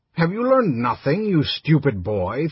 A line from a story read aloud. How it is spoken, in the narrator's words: Theobald demanded angrily